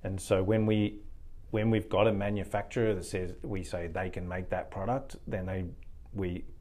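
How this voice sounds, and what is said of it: Australian accent. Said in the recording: “Don't lose that Aussie accent ... Oh, you're from Australia, mate.”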